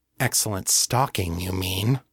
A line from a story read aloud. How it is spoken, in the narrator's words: Kate muttered